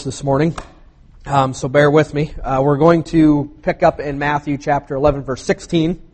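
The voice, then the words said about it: Hoarse voice. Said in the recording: “apologize for my voice. I was a little hoarse”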